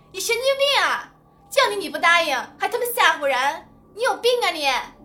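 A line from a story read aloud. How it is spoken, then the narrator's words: Loud cursing. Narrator (Chinese): 大声骂道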